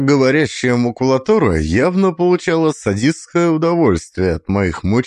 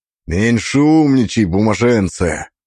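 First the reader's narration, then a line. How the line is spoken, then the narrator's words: Growled. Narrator (Russian): прорычал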